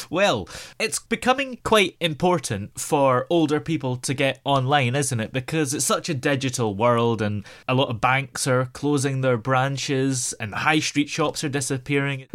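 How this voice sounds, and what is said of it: Scottish accent. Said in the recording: “I detect a bit of an Irish accent there, do I? ... Oh, it's Scottish, but close. ... Purely Scottish. I thought there was a little bit of Irish in there as well.”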